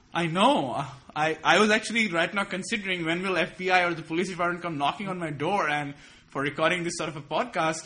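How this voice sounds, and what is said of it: Foreign accent. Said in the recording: “You have a foreign accent.”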